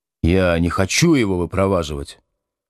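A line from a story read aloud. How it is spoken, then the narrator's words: Mumbled reply. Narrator (Russian): пробурчал в ответ Будкин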